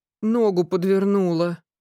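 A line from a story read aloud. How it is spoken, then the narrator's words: Girl whimpering. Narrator (Russian): захныкала девушка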